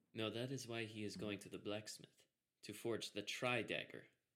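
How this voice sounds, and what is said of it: Speaks in a character voice. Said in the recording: “I said that in character voice.”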